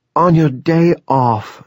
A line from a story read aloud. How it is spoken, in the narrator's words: she cried